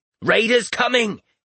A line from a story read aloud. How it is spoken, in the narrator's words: He croaked